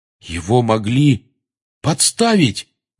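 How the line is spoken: Exclaiming. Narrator (Russian): воскликнул Рон

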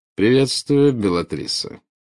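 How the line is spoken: Slightly mocking reply. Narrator (Russian): ответил он, чуть насмешливо искривив губы

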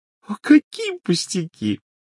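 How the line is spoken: Ringing laughter. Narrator (Russian): миссис Уизли заливисто рассмеялась

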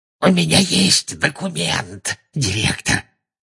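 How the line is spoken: Hoarse. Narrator (Russian): хрипло сказал он

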